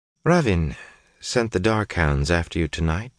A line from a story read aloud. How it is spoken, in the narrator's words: she said calmly